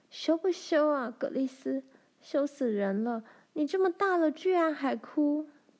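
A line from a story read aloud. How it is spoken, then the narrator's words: Choked-up voice. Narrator (Chinese): 罗兰哽咽了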